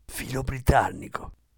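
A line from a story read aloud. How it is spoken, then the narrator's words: Whisper in the ear. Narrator (Italian): sussurrargli all'orecchio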